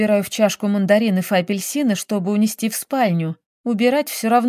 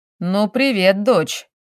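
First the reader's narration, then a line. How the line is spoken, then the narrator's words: Stern fatherly voice. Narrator (Russian): строго звучит папин голос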